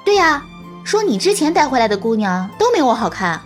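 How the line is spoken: Smiling. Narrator (Chinese): 丛小姐笑眯眯地说

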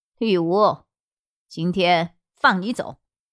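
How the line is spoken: Cold. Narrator (Chinese): 萧剑尘冷冷道

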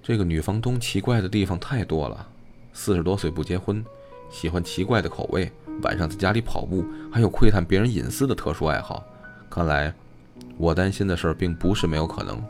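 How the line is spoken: Murmuring after silence. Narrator (Chinese): 孟小雪沉默了一阵，喃喃道

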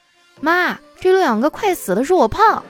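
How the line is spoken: Loud scornful girl. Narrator (Chinese): 那小姑娘翻着白眼，很大声的说

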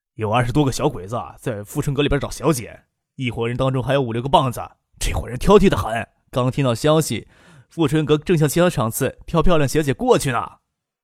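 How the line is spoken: Low voice. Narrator (Chinese): 低声的说

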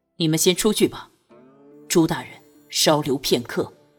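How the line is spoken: Deep grave voice. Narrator (Chinese): 托桑沉声道

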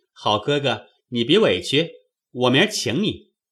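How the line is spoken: Laughing. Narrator (Chinese): 宝玉笑道

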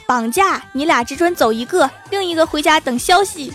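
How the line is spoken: Men shouting. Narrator (Chinese): 三个持刀蒙面大汉，叫道

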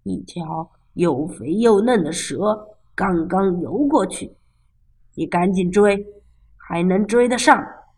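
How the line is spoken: Old man, low voice. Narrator (Chinese): 爷爷低声说

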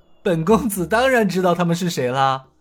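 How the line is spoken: Smiling. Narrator (Chinese): 尹建平又是一笑，说道

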